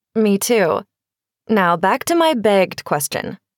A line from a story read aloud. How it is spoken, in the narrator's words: Rachel said